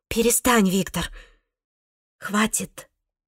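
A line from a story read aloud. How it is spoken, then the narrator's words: Quiet voice. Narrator (Russian): сказала она ему тихим голосом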